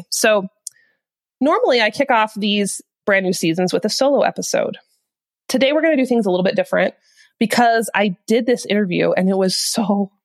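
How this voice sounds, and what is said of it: Nasal, congested head-cold voice. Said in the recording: “my voice sounds funny today, I have not actually taken up smoking. I'm just getting overhead cold. And so I'm extra nasally and Kermit the Frog sounding”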